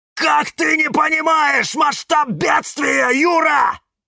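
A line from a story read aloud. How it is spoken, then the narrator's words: Shouting. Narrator (Russian): кричал кактус Кирилл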